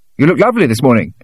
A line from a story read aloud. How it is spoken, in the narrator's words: Dennis exclaimed